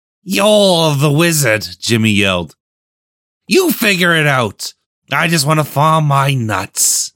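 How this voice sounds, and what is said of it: Yelled character voice. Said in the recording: “yelling and doing this voice”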